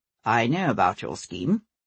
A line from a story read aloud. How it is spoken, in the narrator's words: said Wallace, his voice pitched low